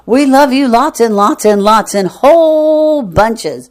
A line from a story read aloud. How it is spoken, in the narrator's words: the crowd shouting